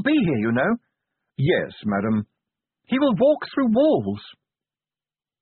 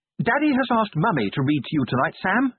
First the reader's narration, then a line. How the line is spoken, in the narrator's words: announced brightly